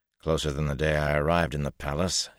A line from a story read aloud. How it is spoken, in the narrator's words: he growled